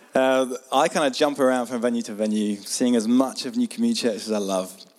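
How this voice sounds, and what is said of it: Hoarse, strained voice. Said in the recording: “Got my lost my voice already.”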